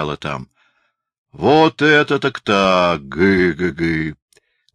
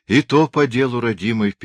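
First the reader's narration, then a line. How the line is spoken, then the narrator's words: Sad old woman. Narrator (Russian): печально отвечала старушка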